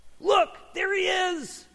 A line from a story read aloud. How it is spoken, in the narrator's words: cried out in an excited voice